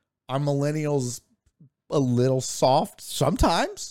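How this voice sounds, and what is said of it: Usual voice. Nothing is said of it.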